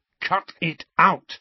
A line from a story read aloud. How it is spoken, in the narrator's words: he said firmly